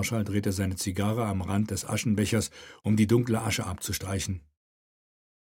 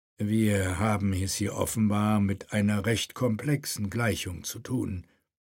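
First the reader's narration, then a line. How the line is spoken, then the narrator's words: Calm. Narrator (German): sagte Euler ruhig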